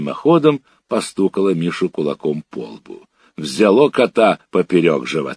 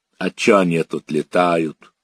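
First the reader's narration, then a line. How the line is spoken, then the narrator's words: Gruff mutter. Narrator (Russian): буркнул Миша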